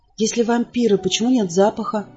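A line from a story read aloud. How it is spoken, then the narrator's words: Quiet question. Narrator (Russian): тихо спросила Эсми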